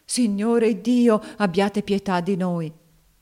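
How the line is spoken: Tearful pathetic old woman. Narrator (Italian): la vecchia Dina, tutta in lacrime anch'essa, esclamava con voce patetica

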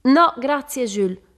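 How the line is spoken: Radiant shout. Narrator (Italian): gridò Kate radiosa

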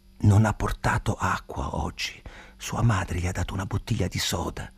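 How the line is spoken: Whisper in the ear. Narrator (Italian): mi sussurrò all'orecchio

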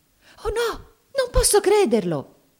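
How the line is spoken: Frightened exclamation. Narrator (Italian): esclamò Mamie impaurita

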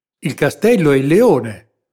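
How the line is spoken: Exclaimed. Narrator (Italian): esclamò Capitan di Lano

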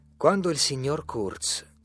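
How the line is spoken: Stern tone. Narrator (Italian): continuai in tono severo

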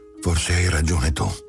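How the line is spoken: Resigned mother. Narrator (Italian): La madre disse in tono rassegnato

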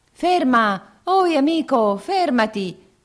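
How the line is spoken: Two voices shouting. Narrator (Italian): gridavano due voci

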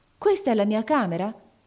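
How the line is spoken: Surprised exclamation. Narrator (Italian): esclamò la barberina

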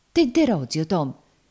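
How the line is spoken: Woman's sudden exclamation. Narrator (Italian): esclamò a un tratto la donna

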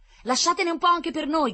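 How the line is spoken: Breathless shouting newcomers. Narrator (Italian): gridavano i nuovi arrivati che ancora arrancavano su per la collina

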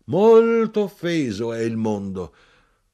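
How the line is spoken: Man shouting. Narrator (Italian): l'uomo Ezechiele gridò

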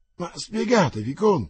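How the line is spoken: Anguished, proud exclamation. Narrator (Italian): esclamò la regina in angoscia sempre più fiera

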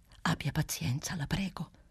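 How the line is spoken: Whispering. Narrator (Italian): bisbigliava Clelia Trotti

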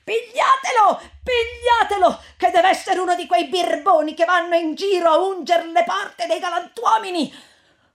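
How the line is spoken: Rude woman shouting. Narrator (Italian): quella medesima sgarbata di prima … gridava anche lei

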